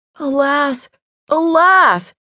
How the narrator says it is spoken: he cried

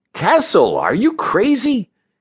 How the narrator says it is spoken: cried

